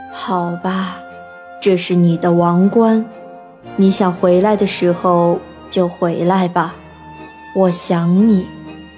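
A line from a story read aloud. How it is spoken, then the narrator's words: Sighing king. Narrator (Chinese): 国王叹了口气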